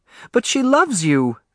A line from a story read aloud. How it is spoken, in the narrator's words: Alice cried